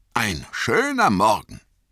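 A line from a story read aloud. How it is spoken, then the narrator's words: Called out. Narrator (German): rief er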